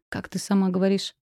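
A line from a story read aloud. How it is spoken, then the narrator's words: Wry snort. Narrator (Russian): Я хмыкнула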